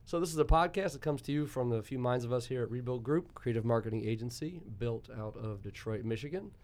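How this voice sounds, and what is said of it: Slightly rusty voice. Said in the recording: “apologize for my voice today, fellas. It's a little rusty”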